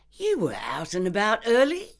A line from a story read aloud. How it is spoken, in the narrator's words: said brightly